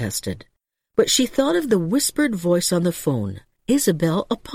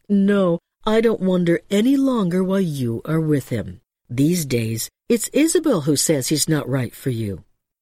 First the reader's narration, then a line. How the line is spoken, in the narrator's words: She laughed, adding